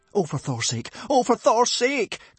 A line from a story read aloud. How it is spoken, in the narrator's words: cried Hiccup, looking desperately around him